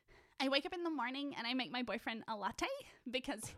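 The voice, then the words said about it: Imitates TikTok influencer girlfriend voice. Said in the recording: “my stay-at-home girlfriends of TikTok voice”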